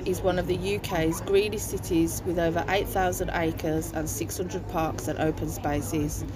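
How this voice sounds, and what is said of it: Birmingham English accent. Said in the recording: “from Birmingham ... See if you notice the differences in their accents.”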